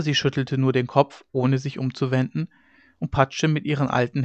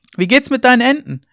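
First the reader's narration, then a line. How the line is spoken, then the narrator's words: Calling after someone. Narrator (German): rief er ihr noch nach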